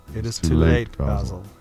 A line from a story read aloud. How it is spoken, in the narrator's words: he murmured